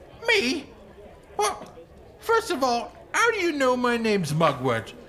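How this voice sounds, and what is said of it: Squeaky character voice. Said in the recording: “in a kind of squeaky voice”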